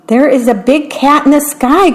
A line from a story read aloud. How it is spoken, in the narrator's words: cried the little mouse